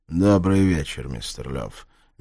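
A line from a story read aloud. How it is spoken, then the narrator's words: Flat monotone. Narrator (Russian): бесцветным монотонным голосом ответил Рейпер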